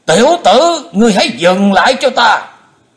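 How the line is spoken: Loud shout. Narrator (Vietnamese): Bệnh túy thần quân quát to lên

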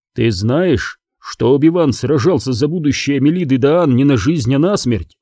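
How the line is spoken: Plain. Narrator (Russian): сказал мастер Джин

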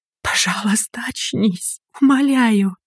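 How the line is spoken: Hopeful pleading whisper. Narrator (Russian): прошептала Инга, надеясь на чудо и молясь всем известным богам

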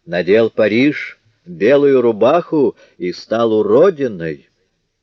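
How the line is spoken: Loud, half-crazed. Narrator (Russian): с обычным своим полубезумным видом, громко проговорила

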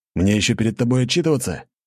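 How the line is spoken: Irritated. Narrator (Russian): раздраженно сказал Максиан

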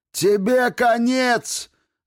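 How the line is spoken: Loud yell. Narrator (Russian): заорал достаточно громко, чтобы все в комнате услышали

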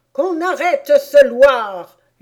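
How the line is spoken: Furious queen screaming. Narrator (French): hurla la reine en fureur

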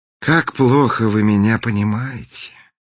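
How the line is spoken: Sighing. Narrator (Russian): вздохнул принц

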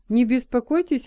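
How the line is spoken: Plain. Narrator (Russian): ответил он

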